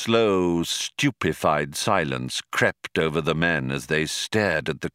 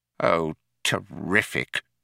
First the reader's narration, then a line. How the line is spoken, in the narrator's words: muttered Fauk